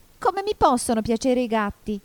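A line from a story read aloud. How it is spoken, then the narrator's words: Shrill indignant mouse. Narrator (Italian): domandò il topo con voce stridula e sdegnata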